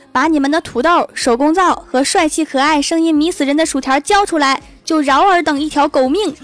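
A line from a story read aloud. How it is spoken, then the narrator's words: Swaggering shout. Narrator (Chinese): 我会狐假虎威的喊道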